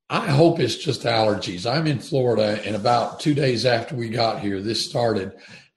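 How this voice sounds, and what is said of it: Slightly raspy, hoarse voice. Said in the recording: “your voice sounds a little raspy ... sounds like you're having some voice difficulties”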